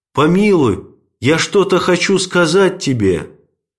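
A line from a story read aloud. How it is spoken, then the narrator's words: Old man exclaiming. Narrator (Russian): Старец воскликнул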